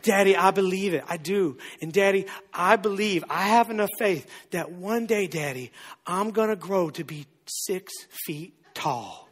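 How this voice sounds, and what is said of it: Small child's voice. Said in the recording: “I don't know why I give this voice to my kid”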